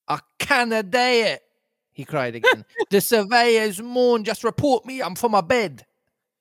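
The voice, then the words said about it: Put-on Scots accent mixed with roadman. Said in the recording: “Scots dialect meets... Roadman accent.”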